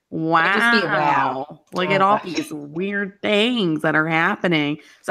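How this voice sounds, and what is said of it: Bad Owen Wilson impression. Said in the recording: “if Owen Wilson were doing it ... that was a really bad impression”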